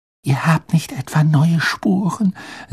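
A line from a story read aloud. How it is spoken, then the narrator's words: Whispered aside. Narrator (German): setzte sie flüsternd hinzu, damit Madame Pomfrey nichts hörte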